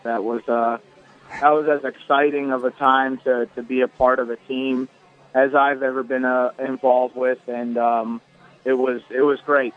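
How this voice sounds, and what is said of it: Hoarse, worn-out voice. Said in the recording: “My voice is shot, too.”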